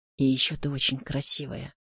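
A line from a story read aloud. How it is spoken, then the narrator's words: Quiet. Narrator (Russian): тихо добавил он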